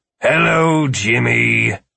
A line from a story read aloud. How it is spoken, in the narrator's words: Philip groaned, then said